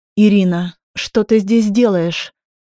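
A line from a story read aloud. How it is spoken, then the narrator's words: Forced calm, nervous. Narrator (Russian): сказала я, стараясь говорить спокойно, хотя сердце колотилось как бешеное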